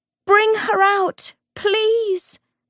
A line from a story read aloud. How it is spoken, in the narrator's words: Lucy screamed